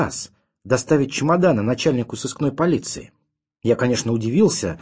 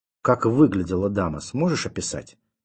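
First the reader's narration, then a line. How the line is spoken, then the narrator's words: Quiet question. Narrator (Russian): тихо спросил ротмистр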